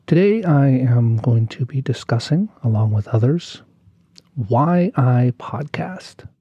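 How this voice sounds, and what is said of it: Voice sounds sick, under the weather. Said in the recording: “If you can't tell by my voice, I'm a little bit under the weather today”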